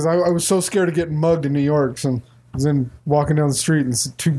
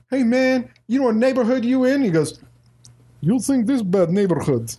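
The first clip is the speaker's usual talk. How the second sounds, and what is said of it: Fake Russian accent. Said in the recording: “faked that Russian accent ... your Russian accent is 12 times better than”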